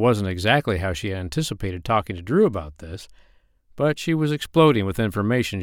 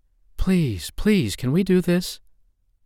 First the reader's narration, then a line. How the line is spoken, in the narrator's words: pleaded